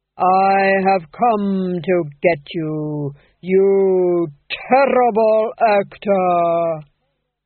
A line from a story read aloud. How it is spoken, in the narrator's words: he intoned, each syllable falling into place